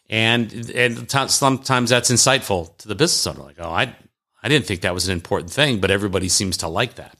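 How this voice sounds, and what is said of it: Southern American accent. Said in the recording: “My Southern accent. People seem to like my Southern accent.”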